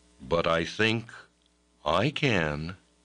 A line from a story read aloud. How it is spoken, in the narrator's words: said Brother Cadfael